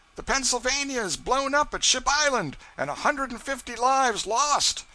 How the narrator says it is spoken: somebody shouted

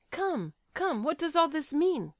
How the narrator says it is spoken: cried Kolya, beside himself at last

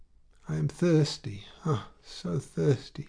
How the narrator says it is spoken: she sighed

